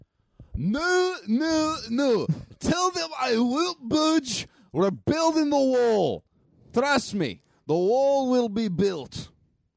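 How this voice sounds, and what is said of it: Weak Scottish accent as Trump. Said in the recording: “nobody on the Meme Boys podcast can actually do an impression of President Donald Trump ... the role of President Donald Trump will be played by some Scottish guy ... That's not even really a good Scottish guy anymore.”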